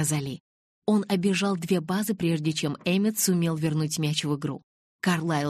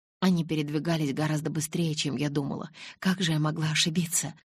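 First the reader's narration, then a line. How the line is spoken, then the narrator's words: Vexed muttering. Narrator (Russian): раздосадованно бормотала Элис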